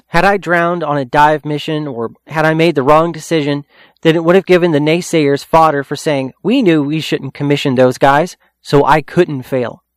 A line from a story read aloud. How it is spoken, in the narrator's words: CAPERS said